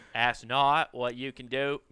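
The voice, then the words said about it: JFK impression, mid-Atlantic, near-Australian. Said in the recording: “I had JFK down perfect ... He's so close to an Australian ... It's that mid-Atlantic”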